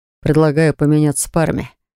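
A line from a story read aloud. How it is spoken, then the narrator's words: Snorting. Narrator (Russian): хмыкнул кронпринц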